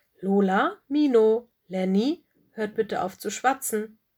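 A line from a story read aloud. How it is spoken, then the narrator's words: Stern call. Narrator (German): rief Frau Stachus streng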